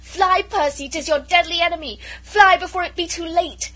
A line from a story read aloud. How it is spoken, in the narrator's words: she very nearly screamed out to him